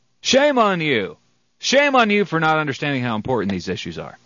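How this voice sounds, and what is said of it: Sarcastic mock outrage. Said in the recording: “I'm being sarcastic, a little tongue-in-cheek”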